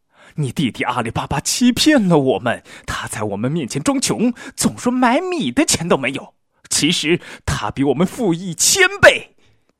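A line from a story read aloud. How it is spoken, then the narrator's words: Wife roaring. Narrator (Chinese): 老婆又吼道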